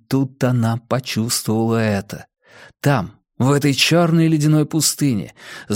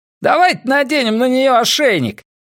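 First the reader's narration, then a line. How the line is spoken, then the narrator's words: Shout. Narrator (Russian): крикнул ещё один из грошовых львов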